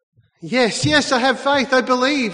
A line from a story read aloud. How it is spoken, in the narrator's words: shouted back